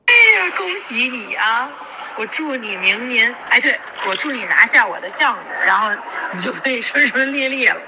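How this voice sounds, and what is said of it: Very heavy regional accent, strong retroflex. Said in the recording (Chinese): “他的那个腔调很重 ... 你们觉得他腔调真的超重 ... 口音就是这样子 ... 卷舌音超重 ... 真的是听不懂哎”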